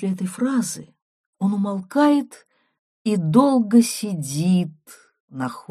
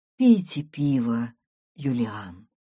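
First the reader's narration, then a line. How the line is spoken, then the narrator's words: Affectionate. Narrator (Russian): говорю я ласково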